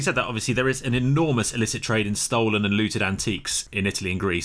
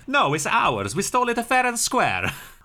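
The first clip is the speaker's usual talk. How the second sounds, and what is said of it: Poor put-on Italian accent. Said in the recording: “That was an Italian accent, so clearly neither can I.”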